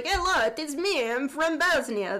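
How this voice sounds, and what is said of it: Put-on Eastern European accent, carnival-barker style. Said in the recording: “Your accent on the first one sounded like if Tommy Wiseau was a carnival barker.”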